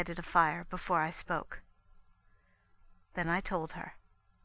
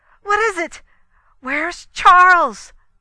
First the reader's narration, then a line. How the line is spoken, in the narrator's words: she cried